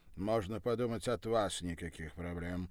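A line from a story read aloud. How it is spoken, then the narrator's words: Scoffing man. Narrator (Russian): хмыкнул рыжеволосый американец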